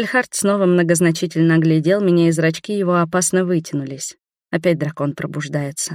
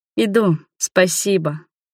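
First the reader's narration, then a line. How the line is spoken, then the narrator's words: Drawn-out, tender, heartfelt. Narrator (Russian): последнее слово произнесла протяжно, ласково и от всей души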